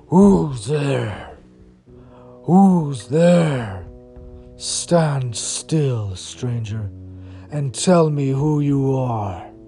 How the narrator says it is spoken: the huge creature said in a growling voice

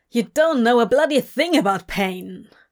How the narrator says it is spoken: Crowley snapped

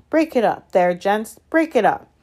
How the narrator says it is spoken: cried the assistant, and then louder than all

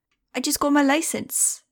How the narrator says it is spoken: she said excitedly in a heavy German accent

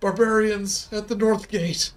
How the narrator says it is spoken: he gasped

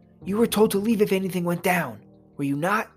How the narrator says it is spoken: I said angrily

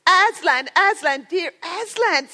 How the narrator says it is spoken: sobbed Lucy

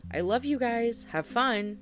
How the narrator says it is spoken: I shouted at the trio

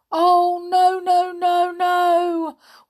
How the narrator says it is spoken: wailed Winks

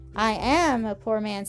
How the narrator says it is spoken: said Mr

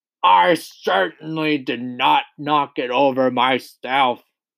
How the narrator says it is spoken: roared the Trunchbull

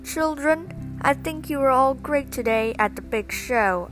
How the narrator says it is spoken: English teachers exclaimed

